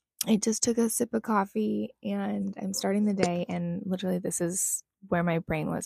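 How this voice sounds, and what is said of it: Just-woken-up morning voice. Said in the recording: “My voice sounds different. That's part of it. I'm just waking up”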